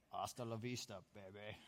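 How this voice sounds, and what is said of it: Bad Arnold Schwarzenegger impression. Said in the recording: “worst Arnold Schwarzenegger impression ever”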